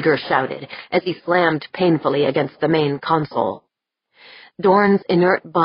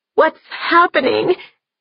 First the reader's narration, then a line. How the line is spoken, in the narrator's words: Deirdre whimpered